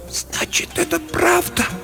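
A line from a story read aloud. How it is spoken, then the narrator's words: Whispered. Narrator (Russian): прошептала она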